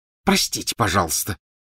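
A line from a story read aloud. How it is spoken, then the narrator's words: Hissed. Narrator (Russian): прошипела Гермиона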